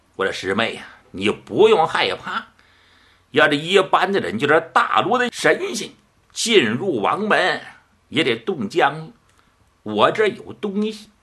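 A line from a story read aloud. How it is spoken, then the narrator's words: Hearty laugh. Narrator (Chinese): 飞幻道人哈哈一笑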